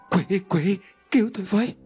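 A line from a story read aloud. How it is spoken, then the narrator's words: Trembling panic. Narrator (Vietnamese): Quân run rẩy trong hoảng loạn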